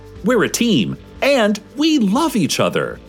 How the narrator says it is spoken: all called out in unison

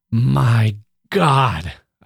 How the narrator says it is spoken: I cried as the light broke in upon me all at once

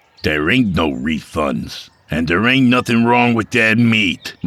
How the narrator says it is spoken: Mike snapped

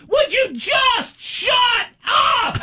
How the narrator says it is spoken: she starts screaming through her window

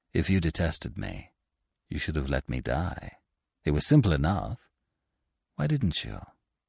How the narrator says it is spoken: He said to her, gently

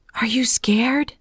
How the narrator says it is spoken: I whispered

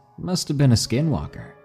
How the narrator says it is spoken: He laughed and said

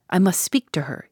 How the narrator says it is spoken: he said

